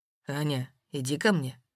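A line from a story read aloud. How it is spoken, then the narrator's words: Quiet. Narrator (Russian): тихо сказал Воронцов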